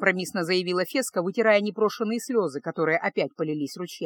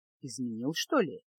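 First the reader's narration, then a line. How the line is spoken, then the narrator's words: Quiet question. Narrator (Russian): тихо спросила она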